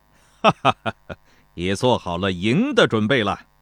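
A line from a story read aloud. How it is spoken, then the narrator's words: Hearty laugh. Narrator (Chinese): 田忌爽朗一笑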